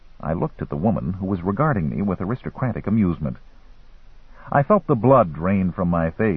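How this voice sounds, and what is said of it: Usual voice. Nothing is said of it.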